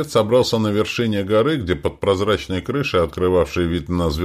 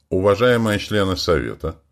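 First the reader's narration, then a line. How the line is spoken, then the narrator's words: Calm but firm. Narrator (Russian): голос звучал спокойно, но в то же время твердо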